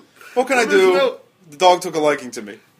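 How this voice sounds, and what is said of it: Bad put-on Welsh-like accent. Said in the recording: “So wait, he was Welsh? ... It was a bad accent.”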